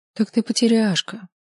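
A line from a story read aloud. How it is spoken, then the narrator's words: Sad. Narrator (Russian): грустно сказала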